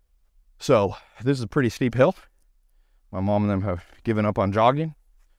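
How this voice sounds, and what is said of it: Out of breath while speaking. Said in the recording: “You can hear I'm a little out. I want to be a little out of breath, but I want to be able to speak... being out of breath, as you can hear, yet being able to speak”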